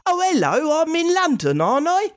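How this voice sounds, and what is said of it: Exaggerated video-game London accent. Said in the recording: “if it's like the ones that I've heard in video games, they go”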